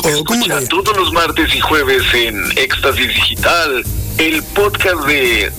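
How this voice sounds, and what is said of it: Radio announcer voice. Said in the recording (Spanish): “voz de locutor que le pones en los podcasts ... échale feeling”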